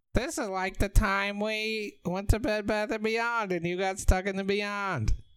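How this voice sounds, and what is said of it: Imitates Marge Simpson's cartoon voice. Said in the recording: “Is that your Marge impression? ... Yeah.”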